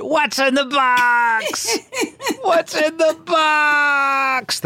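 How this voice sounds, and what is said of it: Brad Pitt impression from Se7en. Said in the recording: “That's my Brad Pitt in 7 impersonation.”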